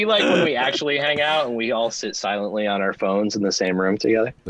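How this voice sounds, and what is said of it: Usual voice. Nothing is said of it.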